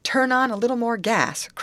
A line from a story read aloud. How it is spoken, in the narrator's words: cried the steersman to Betty